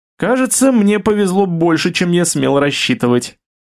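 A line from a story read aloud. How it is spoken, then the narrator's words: Cheerful, smiling. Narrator (Russian): весело улыбнулся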